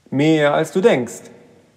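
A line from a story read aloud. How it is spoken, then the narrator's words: Shouted. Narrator (German): rief Ruben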